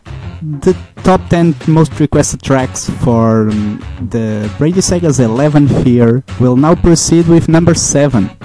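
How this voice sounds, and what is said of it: Noticeable accent. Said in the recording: “I'll be trying to minimize my accent, but sometimes I know it's hard”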